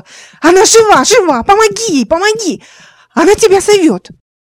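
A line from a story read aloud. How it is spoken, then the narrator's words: Ringing shout. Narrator (Russian): кричала звонко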